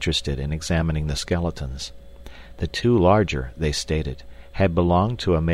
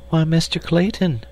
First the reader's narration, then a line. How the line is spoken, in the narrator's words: she cried